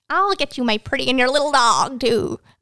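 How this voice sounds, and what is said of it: Wicked Witch of the West impression. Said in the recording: “I can do an impression of her ... the Wicked Witch of the West”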